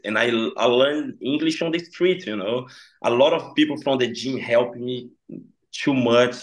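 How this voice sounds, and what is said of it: Strong non-native English accent. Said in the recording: “my accent is really strong, I know”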